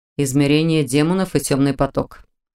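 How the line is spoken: Calm repeat. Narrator (Russian): спокойно повторил Норман

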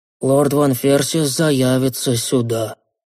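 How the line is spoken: Dull mutter. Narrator (Russian): глухо пробормотал Коин

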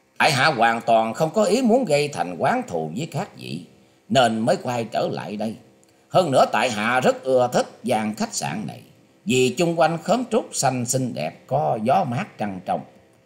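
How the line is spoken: Smiling speech. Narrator (Vietnamese): Nam Cung Bách Thu mỉm cười nói

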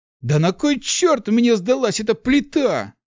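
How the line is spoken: Shout into emptiness. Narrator (Russian): крикнул Март в пустоту

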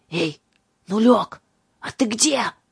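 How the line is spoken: Hoarse whispered call. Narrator (Russian): хриплым шепотом позвал дезертир

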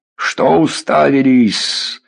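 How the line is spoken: Barked. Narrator (Russian): гаркнул Дубатовк

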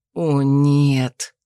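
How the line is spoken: Almost silent groan. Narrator (Russian): Почти бесшумно простонал мой спутник

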